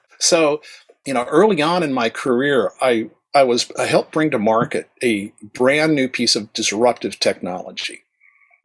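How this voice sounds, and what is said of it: Flat American broadcast-standard radio voice. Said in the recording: “You can still hear the radio voice ... it's trained, you know, the flat American accent. It's American broadcast standard.”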